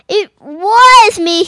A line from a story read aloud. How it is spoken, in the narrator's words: cried